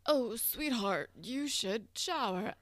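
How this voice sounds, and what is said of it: Imitates a parent's voice. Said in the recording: “that was a really good impression”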